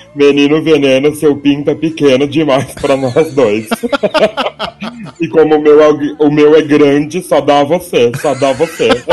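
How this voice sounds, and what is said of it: Singing in English accent. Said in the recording (Portuguese): “com esse sotaque inglês dela”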